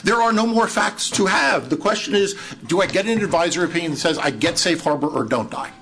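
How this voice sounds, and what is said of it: Raised, agitated voice. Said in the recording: “I apologize for raising my voice”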